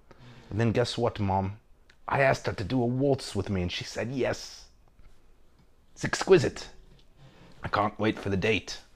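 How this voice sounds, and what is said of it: Imitates another person's voice. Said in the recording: “that was my impression of”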